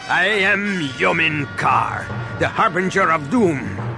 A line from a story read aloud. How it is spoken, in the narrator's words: the warrior said with a sinister laugh